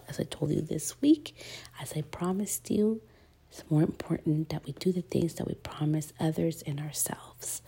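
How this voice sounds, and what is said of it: Sick, slightly whispery voice. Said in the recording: “Excuse the voice. I have been a little sick... So I may be whispering a little bit”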